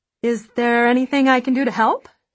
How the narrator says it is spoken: she asks brightly

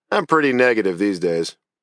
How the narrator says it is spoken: Laughing, I replied

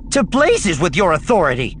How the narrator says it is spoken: Leia snapped

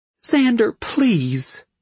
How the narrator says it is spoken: she begged

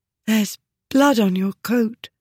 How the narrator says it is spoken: she breathed

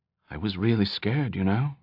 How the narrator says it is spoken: Perk said quietly

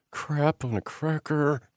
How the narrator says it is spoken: Amanda whispered

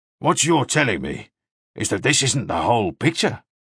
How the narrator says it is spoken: Mannering said gruffly

